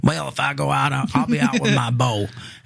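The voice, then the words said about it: Put-on Southern US accent. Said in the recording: “he's from the South. That's the Southern accent.”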